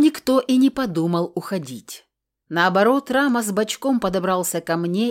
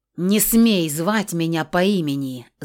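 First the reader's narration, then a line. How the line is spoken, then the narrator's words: Breathless growl. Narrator (Russian): зарычала я, задыхаясь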